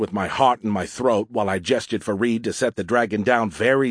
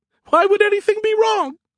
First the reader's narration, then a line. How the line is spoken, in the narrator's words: His voice ended in a squeak